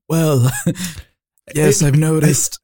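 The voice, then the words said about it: Bad Donald Trump impression. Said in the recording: “I can't do a Trump impression. ... That was the worst Trump impression I've ever heard. ... It's so bad.”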